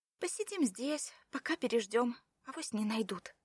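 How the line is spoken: Babbling to herself. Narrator (Russian): лепетала она сама себе

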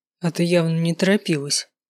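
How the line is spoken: Grumbling. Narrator (Russian): проворчал Кай

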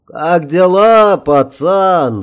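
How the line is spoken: Burst out laughing. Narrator (Russian): расхохотался его незримый собеседник

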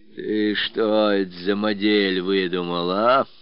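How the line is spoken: Menacing. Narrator (Russian): Грозно встретил Родион Потапыч

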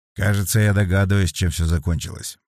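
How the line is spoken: Muttered. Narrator (Russian): пробормотал Сергей

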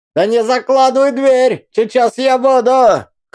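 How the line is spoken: Old woman shouting after. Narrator (Russian): крикнула ей вслед старуха

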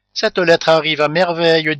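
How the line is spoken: Cheerful. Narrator (French): dit gaiement Rodolphe

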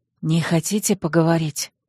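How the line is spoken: Quiet question. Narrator (Russian): негромко спросила Ирма

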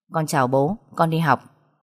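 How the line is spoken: Cold. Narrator (Vietnamese): tôi lạnh lùng để lại một câu nói

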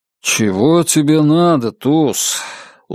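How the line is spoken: Weary speech. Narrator (Russian): устало проговорил Нат Коупленд

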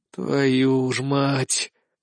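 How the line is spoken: Weary exhale. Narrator (Russian): устало выдохнул

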